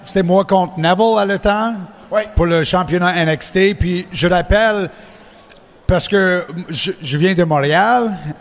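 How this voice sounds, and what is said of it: French with an anglophone accent. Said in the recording (French): “Je suis anglophone, comme tu peux euh, ah entendre mon accent.”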